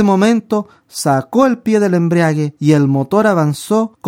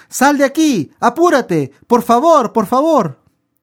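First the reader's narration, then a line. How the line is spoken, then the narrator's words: Man shouting. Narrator (Spanish): el hombre gritó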